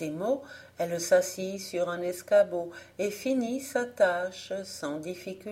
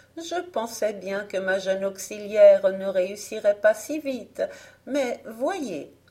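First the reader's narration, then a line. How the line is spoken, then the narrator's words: Laughing. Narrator (French): dit Marguerite en riant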